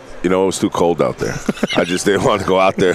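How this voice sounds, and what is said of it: Smooth broadcast-style radio voice. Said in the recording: “You got a good radio voice”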